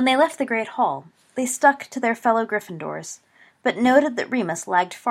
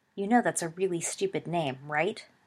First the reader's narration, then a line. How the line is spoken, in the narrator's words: muttered James